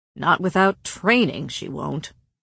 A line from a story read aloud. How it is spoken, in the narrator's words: Cassian grumbled